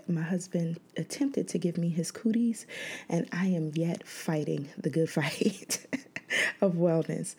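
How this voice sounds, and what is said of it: Tired, worn-sounding voice. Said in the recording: “Please excuse my voice. I'm a bit tired.”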